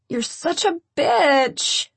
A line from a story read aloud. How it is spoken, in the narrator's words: she groans